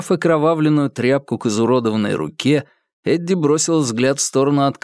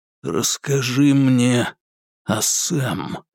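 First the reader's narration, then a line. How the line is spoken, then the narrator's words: Quiet. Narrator (Russian): тихо произнес Курц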